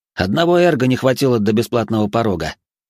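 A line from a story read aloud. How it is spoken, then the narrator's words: Wry grunt. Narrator (Russian): хмыкнул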